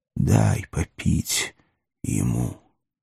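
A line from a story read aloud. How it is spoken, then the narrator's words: Hoarse, failed gentleness. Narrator (Russian): стараясь, чтобы голос его звучал ласково и убедительно, и, не добившись этого, хрипло попросил палача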